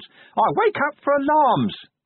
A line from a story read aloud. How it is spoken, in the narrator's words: the imp shrieked